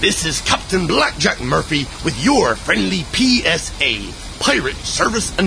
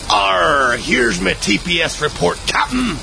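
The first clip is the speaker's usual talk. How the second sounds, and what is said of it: Exaggerated pirate voice. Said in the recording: “talk like a pirate at work”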